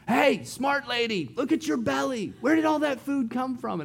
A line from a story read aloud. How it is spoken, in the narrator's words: the Yembis are yelling from the sidelines